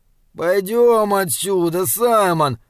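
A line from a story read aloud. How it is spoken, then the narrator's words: Whimpering. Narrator (Russian): захныкал он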